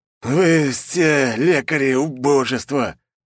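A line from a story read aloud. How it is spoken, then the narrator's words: Hiss. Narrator (Russian): прошипел один из них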